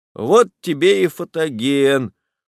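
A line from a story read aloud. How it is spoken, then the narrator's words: Dejected. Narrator (Russian): уныло говорит Жданов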